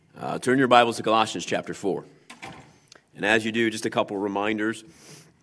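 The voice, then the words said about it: Hoarse, froggy voice. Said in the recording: “so did my voice, apparently. So I got a little bit of a froggy voice today.”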